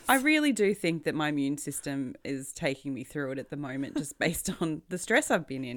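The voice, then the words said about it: Raspy, hoarse voice. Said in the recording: “I sound a little raspy because I have some kind of throat problem. A chest infection.”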